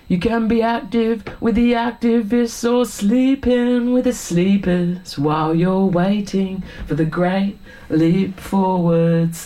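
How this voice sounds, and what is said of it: Put-on English Essex accent. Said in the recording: “You got to have the Pommy accent when you do Billy Bragg. ... he's from Barking, Essex”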